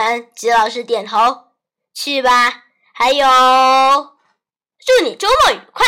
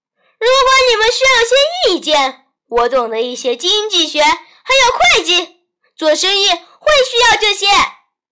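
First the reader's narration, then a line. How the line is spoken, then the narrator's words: Calling out. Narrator (Chinese): 吉老师才喊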